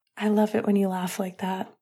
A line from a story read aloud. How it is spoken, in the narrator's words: Finn whispered